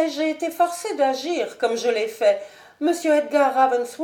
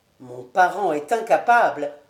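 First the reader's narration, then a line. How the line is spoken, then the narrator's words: Plain. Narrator (French): dit le marquis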